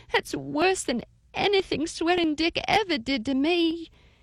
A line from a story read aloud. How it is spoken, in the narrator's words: cried